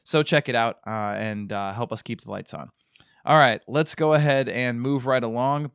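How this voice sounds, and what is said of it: Deeper, bassy voice from a cold. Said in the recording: “a little bit of extra bass in my voice today ... I am getting over a sickness ... a pretty severe head cold”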